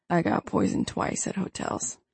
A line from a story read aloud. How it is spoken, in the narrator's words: he says grimly